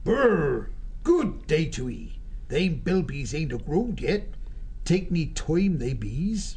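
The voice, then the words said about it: Quaint rustic mole accent. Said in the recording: “the quaint mole accent”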